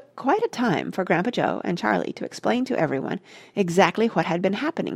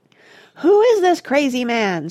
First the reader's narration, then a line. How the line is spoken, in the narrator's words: screamed